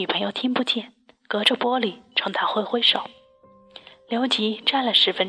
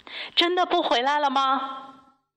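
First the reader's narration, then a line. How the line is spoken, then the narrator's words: Involuntary call. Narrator (Chinese): 刘吉忍不住喊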